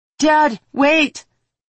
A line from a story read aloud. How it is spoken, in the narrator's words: yelled as she ran